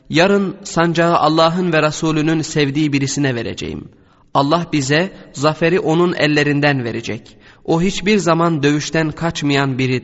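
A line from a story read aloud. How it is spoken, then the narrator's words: Plain. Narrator (Turkish): dedi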